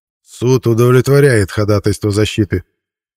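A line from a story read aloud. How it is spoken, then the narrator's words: Icy reply. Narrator (Russian): ледяным тоном ответил председатель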